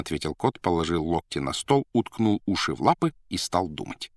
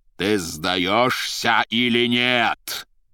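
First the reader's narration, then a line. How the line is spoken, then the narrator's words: Shouted in terrible voice. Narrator (Russian): прокричал страшным голосом Воланд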